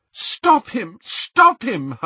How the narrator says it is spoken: Hermione cried

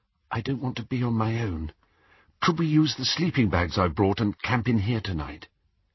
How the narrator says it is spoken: Faintly, he heard Hermione say

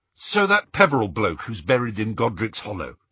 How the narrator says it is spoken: he said hastily, trying to sound robustly sane

